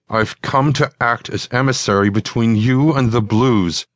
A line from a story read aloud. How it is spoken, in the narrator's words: Divaj said through gritted teeth